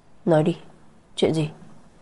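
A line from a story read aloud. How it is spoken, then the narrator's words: Cold question. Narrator (Vietnamese): lạnh lùng hỏi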